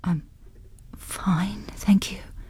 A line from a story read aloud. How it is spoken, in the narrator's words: she whispered